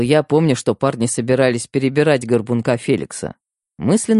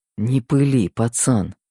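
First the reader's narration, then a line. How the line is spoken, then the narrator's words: Muttered. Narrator (Russian): Пробормотал я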